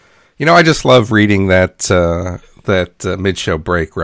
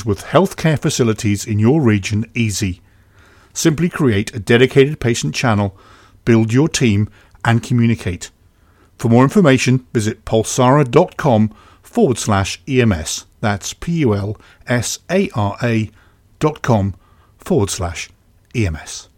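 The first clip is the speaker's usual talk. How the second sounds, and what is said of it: Imitates another person's voice. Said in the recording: “You did a really good impression of me there”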